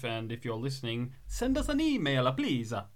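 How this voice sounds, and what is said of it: Bad put-on Italian accent. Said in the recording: “that was a really bad Italian accent”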